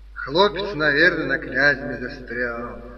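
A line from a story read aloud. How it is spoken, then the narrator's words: Deep-voiced woman replying. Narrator (Russian): густым голосом отозвалась Настасья Лукинишна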